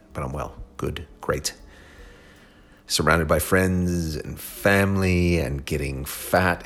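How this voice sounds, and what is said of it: Hoarse, fading voice. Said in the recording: “Losing my voice just because I've been going nonstop for the past 3 weeks.”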